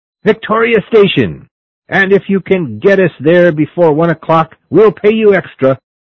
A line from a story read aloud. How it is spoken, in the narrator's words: young men shouting